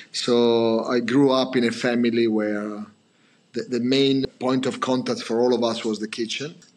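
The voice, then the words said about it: Italian accent. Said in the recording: “I come from, obviously, Italy, as you can imagine from my pronunciation and my accent”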